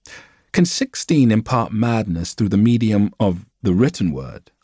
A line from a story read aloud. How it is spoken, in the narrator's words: I asked